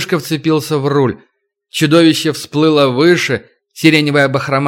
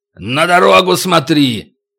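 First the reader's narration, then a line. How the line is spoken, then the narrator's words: Barked. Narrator (Russian): рявкнул Макота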